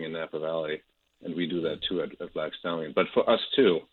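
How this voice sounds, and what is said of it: German accent. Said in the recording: “maybe I've picked up my accent. I grew up in Germany”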